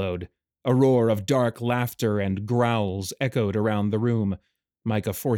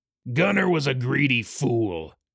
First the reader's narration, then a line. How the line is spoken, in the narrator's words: Skrillis growled